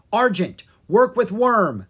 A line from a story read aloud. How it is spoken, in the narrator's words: she yelled